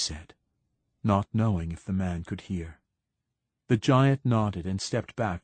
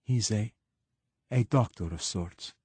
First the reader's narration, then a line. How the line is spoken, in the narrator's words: said Moneta